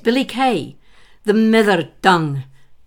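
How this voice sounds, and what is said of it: Poor put-on Scots accent. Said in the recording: “my terrible attempt at a Scots accent”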